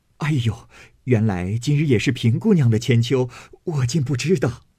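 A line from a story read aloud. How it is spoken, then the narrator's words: Laughing. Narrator (Chinese): 柳家的笑道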